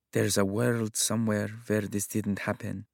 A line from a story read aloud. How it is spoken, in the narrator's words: her mumble